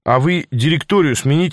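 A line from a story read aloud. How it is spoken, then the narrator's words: Plain. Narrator (Russian): сказал Саша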